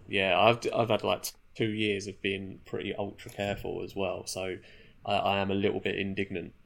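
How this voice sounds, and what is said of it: Congested, stuffy-headed voice. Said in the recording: “I sound like my head is full of cotton wool”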